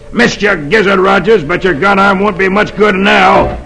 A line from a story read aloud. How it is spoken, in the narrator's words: Dolan snarls